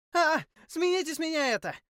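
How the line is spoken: Squeaky young female voice. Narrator (Russian): запищал красивый молодой женский голос

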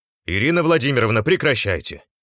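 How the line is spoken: Shouting. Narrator (Russian): крикнул Кольцов

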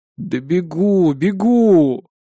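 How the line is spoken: Breathless exhale. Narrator (Russian): выдохнул я

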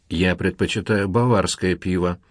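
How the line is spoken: Dry. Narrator (Russian): сухо заметил Карл

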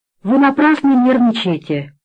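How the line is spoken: Calm remark. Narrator (Russian): спокойно заметил

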